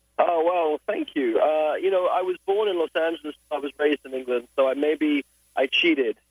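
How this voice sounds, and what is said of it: British accent. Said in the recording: “you have a very British accent”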